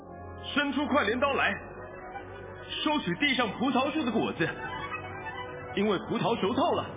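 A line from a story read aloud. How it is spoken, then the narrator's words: Loud commanding shout. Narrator (Chinese): 一位天使，是有权柄管火的，向拿着快镰刀的大声喊着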